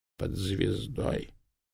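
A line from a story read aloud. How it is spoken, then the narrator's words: Barely audible, weak. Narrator (Russian): еле слышно произнесли вялые губы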